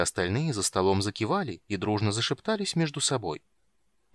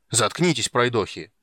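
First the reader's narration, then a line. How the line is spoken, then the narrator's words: Irritated bark. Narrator (Russian): раздраженно рявкнул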